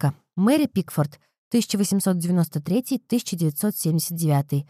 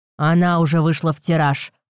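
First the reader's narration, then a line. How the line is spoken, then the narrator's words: Contemptuous, through gritted teeth. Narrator (Russian): презрительно процедил Шенберг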